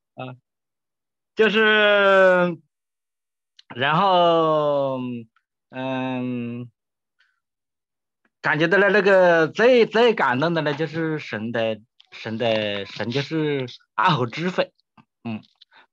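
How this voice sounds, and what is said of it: Heavy Hunan Xiangtan accent. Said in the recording (Chinese): “你是长沙的哦，湖南的 ... 湘潭的 ... 口音好重”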